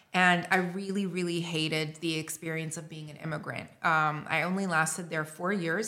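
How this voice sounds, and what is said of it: North American accent. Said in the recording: “Why do you sound so North American”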